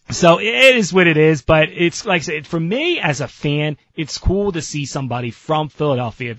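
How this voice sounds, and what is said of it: South Jersey accent, flat vowels. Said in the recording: “I can still hear your accent... You have an accent... I have the accent... that South Jersey flat vowel sound”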